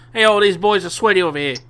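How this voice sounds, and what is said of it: Put-on New York accent. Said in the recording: “that's what my head thinks of a New York accent.”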